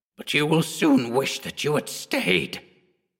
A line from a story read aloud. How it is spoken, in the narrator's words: she spat with a guttural virulence